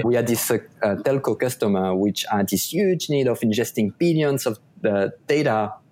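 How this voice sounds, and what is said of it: French accent. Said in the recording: “my French accent, which I assure you was much worse than what it is right now as you listen”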